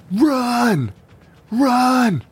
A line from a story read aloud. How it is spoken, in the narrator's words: Roman yelled at Candy